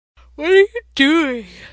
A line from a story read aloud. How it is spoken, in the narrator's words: Sam asked, a yawn cracking his face in half